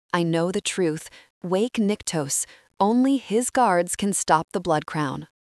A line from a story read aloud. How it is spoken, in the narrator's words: he embraces me and whispers